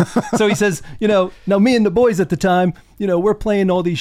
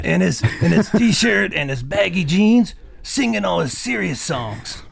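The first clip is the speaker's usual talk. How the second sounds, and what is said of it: Bad imitation of another person's voice. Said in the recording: “I don't like your impression. ... It's really bad, isn't it? ... It's really terrible.”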